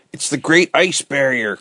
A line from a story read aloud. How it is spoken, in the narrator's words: cried Ned